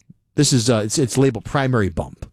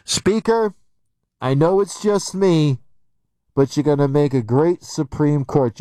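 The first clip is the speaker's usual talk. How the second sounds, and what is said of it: Imitates another person's voice. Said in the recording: “I can do the impersonation.”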